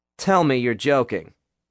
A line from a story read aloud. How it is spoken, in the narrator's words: Nick said